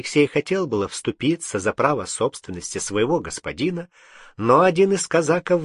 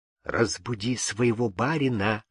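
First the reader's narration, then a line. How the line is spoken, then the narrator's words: Whisper. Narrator (Russian): шепнул Кирша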